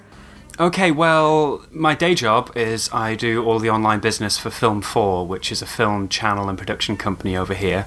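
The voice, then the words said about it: British accent. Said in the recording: “an extremely convincing British accent”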